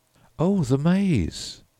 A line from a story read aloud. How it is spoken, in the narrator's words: exclaimed Humphreys